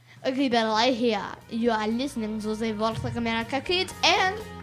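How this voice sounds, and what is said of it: French accent. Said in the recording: “freak French accent”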